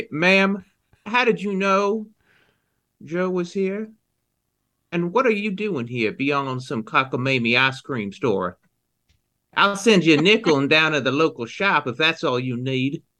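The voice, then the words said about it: Put-on character accent. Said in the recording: “the only thing suspicious around here is your accent”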